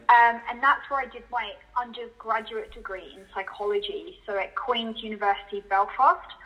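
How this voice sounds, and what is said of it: UK, Northern Irish accent. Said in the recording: “as you can probably tell from my accent, was not bred in Australia ... I was brought up in the UK, so I actually lived for many years in Northern Ireland.”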